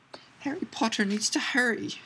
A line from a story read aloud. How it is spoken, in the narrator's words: squeaked Dobby